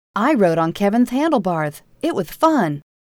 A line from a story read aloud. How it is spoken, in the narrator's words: Rachel pulled on his pants leg and chirped